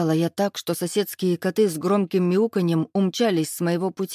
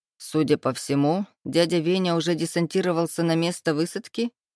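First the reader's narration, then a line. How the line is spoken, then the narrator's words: Short laugh. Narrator (Russian): хохотнул Демоненко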